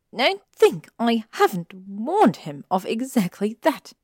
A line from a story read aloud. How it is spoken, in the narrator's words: she snapped